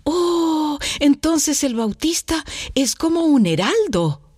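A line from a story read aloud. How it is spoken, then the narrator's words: Proud exclamation. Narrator (Spanish): exclama orgulloso Luchito de habérsele ocurrido algo tan original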